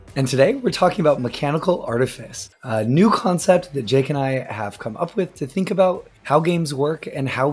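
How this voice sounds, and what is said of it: Weakened voice, still recovering. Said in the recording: “I'll still have some semblance of a voice, as my voice is still slowly but surely recovering ... your voice does sound better ... is the one who's losing his voice”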